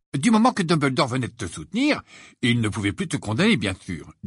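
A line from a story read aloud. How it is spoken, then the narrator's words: Cheerful. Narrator (French): dit Ron d'un ton joyeux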